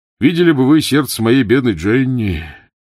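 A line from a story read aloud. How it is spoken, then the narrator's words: Sighing. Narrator (Russian): вздохнул Твикс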